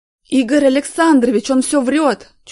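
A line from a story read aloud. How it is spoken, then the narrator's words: Shrill tearful shouting. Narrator (Russian): чуть не плача кричал Артем визгливым голосом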